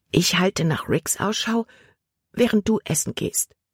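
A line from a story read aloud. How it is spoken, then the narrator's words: Whispering. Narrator (German): flüsterte Libby Caleb zu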